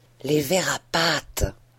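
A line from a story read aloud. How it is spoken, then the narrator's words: Breathed. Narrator (French): souffla Homais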